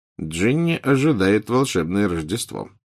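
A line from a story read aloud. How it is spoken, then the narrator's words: Muttering. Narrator (Russian): пробормотал Фред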